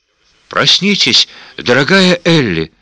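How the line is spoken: Soft babble. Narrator (Russian): пролепетала Примула

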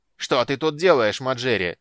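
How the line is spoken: Angry shout. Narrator (Russian): сердито крикнул Горбонос

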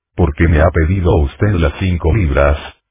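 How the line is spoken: Young man murmuring, suppressed fury. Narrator (Spanish): murmuró el joven, haciendo lo imposible para ocultar la furia que sentía

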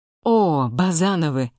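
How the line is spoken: Exclamation. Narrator (Russian): воскликнул Антон

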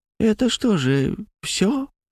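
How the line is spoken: Quiet old woman. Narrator (Russian): сказала тихонько одна старушка

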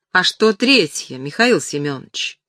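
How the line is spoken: Calm question. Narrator (Russian): Дима Усов спокойно спрашивает

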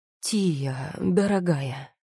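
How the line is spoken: Ingratiating, coaxing. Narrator (Russian): вкрадчиво начал он

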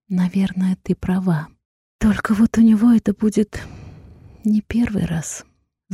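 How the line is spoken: Bitter sigh. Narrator (Russian): с горечью в голосе вздохнула я

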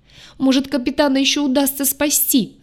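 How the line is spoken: Sobbing. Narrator (Russian): рыдала

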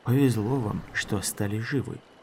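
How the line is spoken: Gruff mutter. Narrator (Russian): буркнул Шелк

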